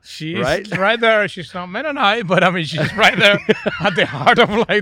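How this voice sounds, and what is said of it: Venezuelan Spanish accent. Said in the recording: “I'm from Venezuela. Oh, you know, with this accent, right?”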